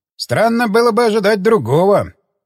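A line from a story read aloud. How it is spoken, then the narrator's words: Snorting. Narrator (Russian): хмыкнул Паламарес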